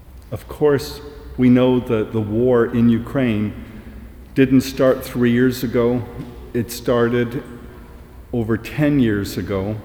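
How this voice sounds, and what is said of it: Canadian accent. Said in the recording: “As you might tell from my accent, I'm not from Coventry. ... my family emigrated from Ukraine to Canada ... I'm a fourth generation Ukrainian Canadian”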